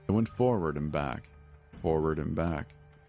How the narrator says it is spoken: she sighed

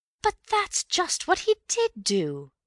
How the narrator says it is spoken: cried Bill triumphantly

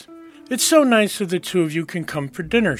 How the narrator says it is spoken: exclaimed

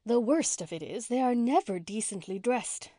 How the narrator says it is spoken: sighed Miss Cornelia

